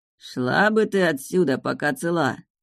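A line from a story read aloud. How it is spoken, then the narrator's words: Menacing, through gritted teeth. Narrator (Russian): Процедил мужчина средних лет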